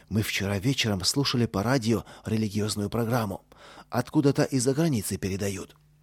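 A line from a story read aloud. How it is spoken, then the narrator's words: Low undertone. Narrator (Russian): Костя и сказал вполголоса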